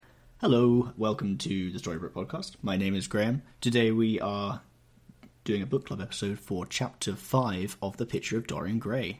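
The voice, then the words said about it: Weird, energetic presenter voice. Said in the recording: “I'm saying it in a very weird voice today. Bring some energy to this recording.”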